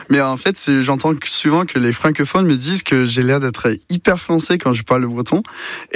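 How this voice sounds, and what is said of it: Fluent French with American accent. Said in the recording (French): “vous nous parlez parfaitement français, avec votre accent américain”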